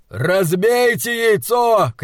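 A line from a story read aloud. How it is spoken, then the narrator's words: Shouting. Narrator (Russian): кричал Вэрон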